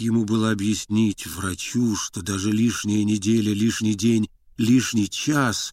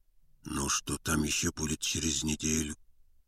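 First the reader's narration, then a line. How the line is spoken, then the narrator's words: Quiet. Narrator (Russian): тихо сказал Мерзляков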